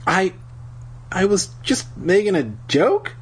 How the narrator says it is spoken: I stammered

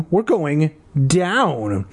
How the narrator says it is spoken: I exclaimed

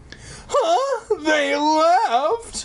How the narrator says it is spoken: Alex cried shrilly

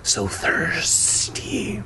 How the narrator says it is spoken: she hissed

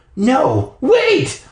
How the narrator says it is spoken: I cried

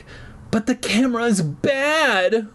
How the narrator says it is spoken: Brian exclaimed

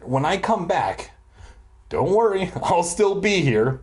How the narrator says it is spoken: he said cheerfully

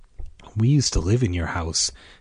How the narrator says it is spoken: Karen said softly

